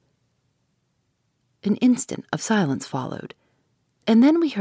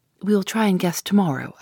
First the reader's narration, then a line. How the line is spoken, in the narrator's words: replied